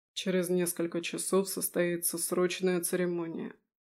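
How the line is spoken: Quiet. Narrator (Russian): негромко продолжал Леконт

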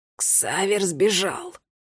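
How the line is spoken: Hoarse rasp. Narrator (Russian): Прохрипел Арне

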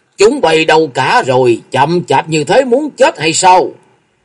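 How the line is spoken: Impatient man's loud bellow. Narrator (Vietnamese): Người đại hán có vết thẹo ở trên mặt có vẻ nóng nảy, quát lớn

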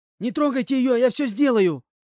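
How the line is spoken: Shouting. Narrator (Russian): закричал Павлик

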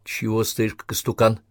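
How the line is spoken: Whisper. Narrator (Russian): добавила шепотом

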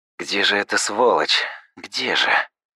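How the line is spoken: Desperate muttering. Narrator (Russian): Бормотал я, отчаявшись найти главгада глазами

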